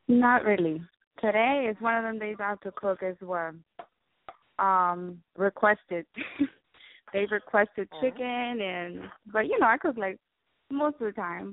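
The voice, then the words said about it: Strong Colombian accent. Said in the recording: “I never knew your accent was this strong ... I'm Colombian.”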